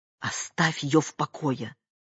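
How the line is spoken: Irritated whisper. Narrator (Russian): раздраженным шепотом ответила Лида

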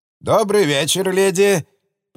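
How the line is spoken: High, unpleasant voice. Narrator (Russian): произнес СД довольно высоким и неприятным голосом

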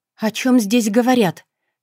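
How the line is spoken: Loud question. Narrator (Russian): спросила она громко

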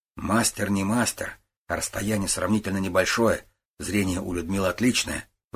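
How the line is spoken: Sighing. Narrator (Russian): вздохнул Гуров

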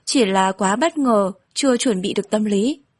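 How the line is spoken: Startled, smiling. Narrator (Vietnamese): Phạm Nhàn giật mình, mỉm cười nói

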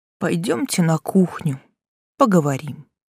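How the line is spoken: Gloomy sighing suggestion. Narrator (Russian): Он вздохнул и мрачно предложил

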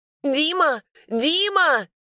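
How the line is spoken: Very loud call. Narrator (Russian): Позвала очень громко

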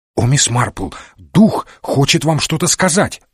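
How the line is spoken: Excited. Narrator (Russian): взволнованно сказал Уотсон

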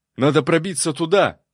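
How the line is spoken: Monk shouting into ear. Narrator (Russian): закричал мне в ухо чернобородый монах

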